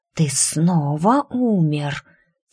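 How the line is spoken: Quiet snake hiss. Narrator (Russian): тихо зашипела змея

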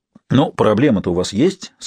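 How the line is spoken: Plain. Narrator (Russian): сказал доктор

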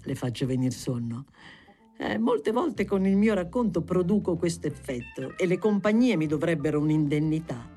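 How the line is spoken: Laughing. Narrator (Italian): disse, ridendo

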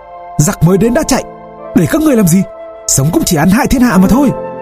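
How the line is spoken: Angry loud shout. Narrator (Vietnamese): Quốc Toàn nổi nóng, quát to

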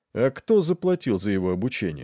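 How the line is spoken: Casual question. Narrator (Russian): спросил Нед непринужденным тоном

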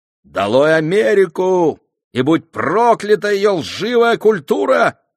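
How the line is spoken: Shouting. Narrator (Russian): кричал

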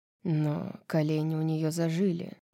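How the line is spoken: Quiet reply. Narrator (Russian): так же тихо ответил Азриэль

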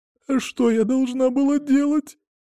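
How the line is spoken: Sobbing. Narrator (Russian): всхлипывала Варя

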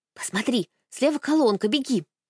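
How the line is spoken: Whispered instruction. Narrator (Russian): шепотом указала Аня

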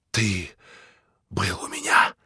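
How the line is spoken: Grating whisper. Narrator (Russian): Скрежещущим шепотом проговорил он

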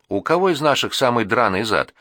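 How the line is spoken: Cheerful question. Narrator (Russian): весело спрашивала Наташа

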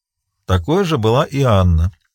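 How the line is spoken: Sighing. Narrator (Russian): вздохнул

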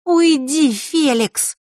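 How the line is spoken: Hissed through teeth. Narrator (Russian): тут же процедила Захара

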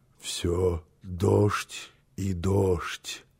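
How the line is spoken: Drowsy half-conscious mutter. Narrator (Russian): пробормотал он еще в полузабытии

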